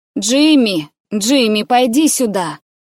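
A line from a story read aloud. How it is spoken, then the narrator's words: Loud call. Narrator (Russian): Коппола громко позвала Джимми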